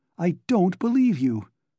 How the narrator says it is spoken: cried Dounia, completely losing her head

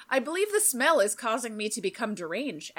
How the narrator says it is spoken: Axe said calmly

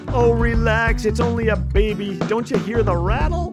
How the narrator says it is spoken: His companion laughed

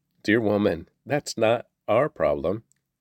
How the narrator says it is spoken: Jesus replied

